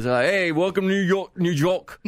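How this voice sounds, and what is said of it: Clumsy imitated New York accent. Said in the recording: “What was that accent? ... Who talks like that? ... New Yorkers ... So accents are not my forte.”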